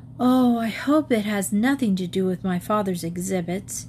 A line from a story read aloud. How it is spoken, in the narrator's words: With a deep sigh, Elise said